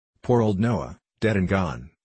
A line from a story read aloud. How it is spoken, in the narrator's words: said he